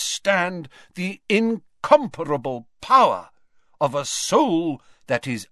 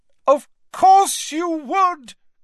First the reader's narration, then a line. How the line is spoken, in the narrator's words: cried Dumbledore